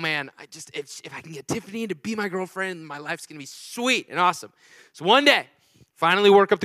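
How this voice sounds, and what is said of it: Usual voice. Nothing is said of it.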